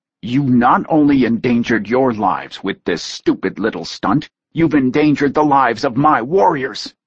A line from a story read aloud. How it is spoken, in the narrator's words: he bit out harshly